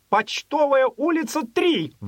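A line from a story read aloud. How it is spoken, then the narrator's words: Sudden angry shout. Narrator (Russian): Вдруг в сердцах крикнул аптекарь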